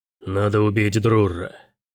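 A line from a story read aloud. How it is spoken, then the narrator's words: Guttural grumble, general. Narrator (Russian): гортанно проворчал генерал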